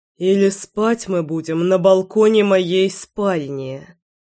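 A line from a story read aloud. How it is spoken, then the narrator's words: Through clenched teeth. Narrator (Russian): процедил Заверин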